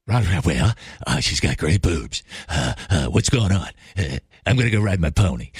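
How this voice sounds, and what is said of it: Imitates another person's voice. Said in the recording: “my Ronald Reagan impression. It's not very good.”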